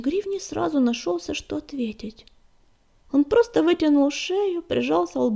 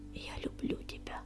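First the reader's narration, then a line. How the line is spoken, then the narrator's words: Voice breaking, mouthed whisper. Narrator (Russian): Голос его сорвался, и он прошептал одними губами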